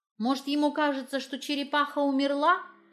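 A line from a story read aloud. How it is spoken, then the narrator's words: Shouted reply. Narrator (Russian): крикнула я в ответ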